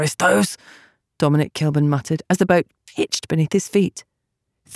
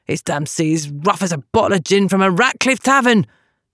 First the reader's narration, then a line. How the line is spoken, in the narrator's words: Dom snarled at his friend